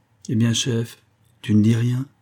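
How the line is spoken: Almost timid brute asking. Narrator (French): demanda presque timidement Tanguy la brute

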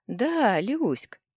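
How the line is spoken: Giggling. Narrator (Russian): хихикнул друг Компи

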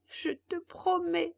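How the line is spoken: Puppet sobbing. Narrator (French): dit le pantin en sanglotant

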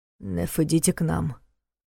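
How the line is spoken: Quiet command. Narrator (Russian): тихо велел Ваня

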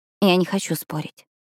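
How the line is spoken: Quiet. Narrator (Russian): тихо произнесла Пиппа

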